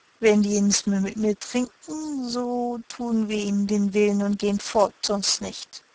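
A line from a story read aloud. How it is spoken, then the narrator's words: Slurred drunken speech. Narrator (German): sagte mit lallender Zunge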